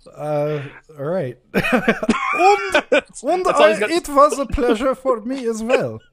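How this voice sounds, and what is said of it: Put-on accent of uncertain origin. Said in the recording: “I don't know what accent I'm doing anymore. ... I'm not sure what that was. ... I think that's from the Southern Tier of New York, but I'm not 100% sure of that.”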